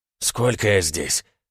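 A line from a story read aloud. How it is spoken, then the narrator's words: Hoarse rasp. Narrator (Russian): прохрипел спасенный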